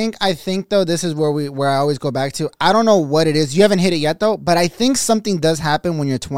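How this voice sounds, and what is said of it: Usual voice. Nothing is said of it.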